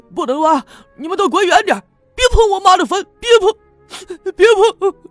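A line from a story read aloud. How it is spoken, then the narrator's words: Panicked, sobbing shout. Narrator (Chinese): 王革命慌乱中……一边哭喊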